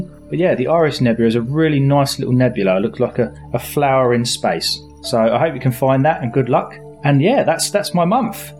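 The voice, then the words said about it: Out of breath. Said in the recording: “I'm out of breath.”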